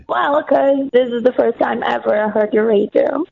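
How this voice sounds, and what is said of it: Croaky voice with Brazilian accent. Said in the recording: “your accent, and your croaky voice is just slightly clouding your accent ... I'm Brazilian.”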